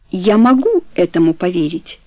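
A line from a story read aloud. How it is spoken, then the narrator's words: Plain. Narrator (Russian): сказала Каро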